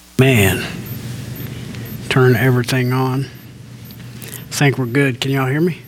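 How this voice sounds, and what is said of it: Speaking very softly. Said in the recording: “I know I'm talking really soft.”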